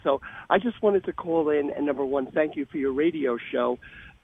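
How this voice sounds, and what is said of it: Slightly hoarse voice. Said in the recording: “My voice is a little bit hoarse because the New York weather here is very ominous, raining, cloudy, snowing.”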